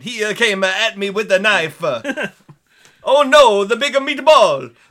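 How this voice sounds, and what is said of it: Exaggerated bad Italian accent. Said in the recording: “a really bad Italian accent.”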